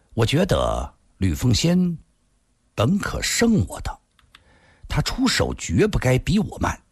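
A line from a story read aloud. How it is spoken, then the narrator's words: Slow. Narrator (Chinese): 他缓缓地又接着说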